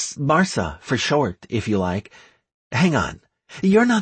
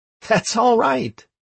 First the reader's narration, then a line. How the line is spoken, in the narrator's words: I replied happily